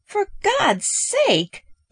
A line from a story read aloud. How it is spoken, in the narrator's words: Peterson exclaimed